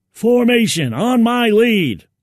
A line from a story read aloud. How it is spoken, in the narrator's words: he yelled